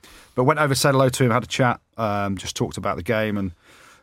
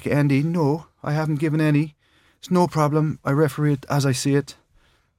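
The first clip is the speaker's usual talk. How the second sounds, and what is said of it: Poor put-on Irish accent. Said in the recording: “Terrible Irish accent.”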